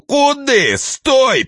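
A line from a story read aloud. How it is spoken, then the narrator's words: Sudden yell. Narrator (Russian): вдруг завопил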